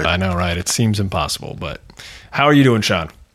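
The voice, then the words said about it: Slightly husky, congested voice. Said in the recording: “I got a little bit of a cold. So my voice sounds a little sexier than normal”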